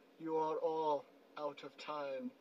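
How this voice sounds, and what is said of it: Thanos voice impression. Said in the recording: “It's my Thanos accent. I can't do a Josh Brolin.”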